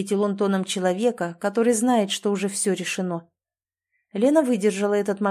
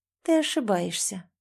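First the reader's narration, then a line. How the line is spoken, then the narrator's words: Quiet woman. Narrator (Russian): тихо сказала она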